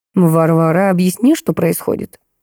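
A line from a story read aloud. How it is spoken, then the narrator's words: Dry question. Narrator (Russian): спросил сухо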